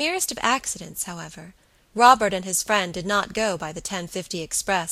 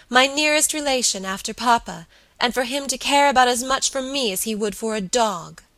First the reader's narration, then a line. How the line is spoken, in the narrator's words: she cried passionately